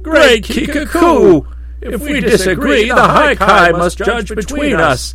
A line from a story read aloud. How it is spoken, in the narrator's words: roared the twin Kai excitedly